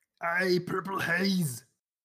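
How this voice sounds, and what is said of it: Imitates another person's voice. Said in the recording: “Maybe say it like Arnold. Can you do an Arnold impersonation? ... Perfect.”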